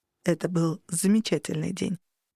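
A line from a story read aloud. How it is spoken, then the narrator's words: Quiet, barely audible. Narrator (Russian): проговорил тихо и выдохнул едва слышно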